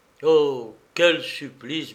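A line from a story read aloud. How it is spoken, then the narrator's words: Stammering. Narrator (French): balbutia-t-il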